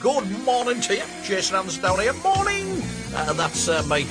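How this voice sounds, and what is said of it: Very cheerful, upbeat voice. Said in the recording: “I sound awfully happy, don't I, even for this hour of the morning”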